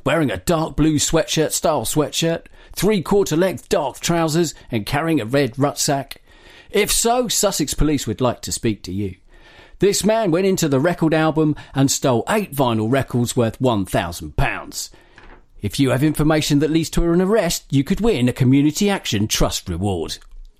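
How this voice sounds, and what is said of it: Imitates another person's voice. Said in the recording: “that was my terrible impression of”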